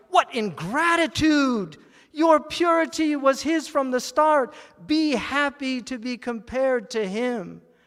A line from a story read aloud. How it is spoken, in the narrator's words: Copper cried